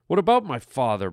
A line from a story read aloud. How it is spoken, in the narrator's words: Brett snapped